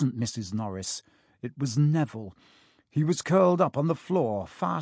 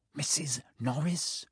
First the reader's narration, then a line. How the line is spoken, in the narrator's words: breathed Ron